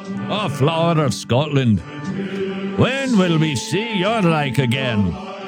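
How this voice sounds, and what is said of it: Put-on Scottish accent. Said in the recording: “Trust me, this is a Scottish accent.”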